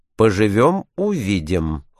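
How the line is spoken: Cold. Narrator (Russian): холодно ответил Барбикен

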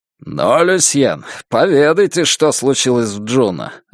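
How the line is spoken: Laughing. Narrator (Russian): рассмеялся Уэйд

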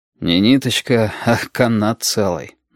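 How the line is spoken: Sighing. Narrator (Russian): вздохнул Валентин

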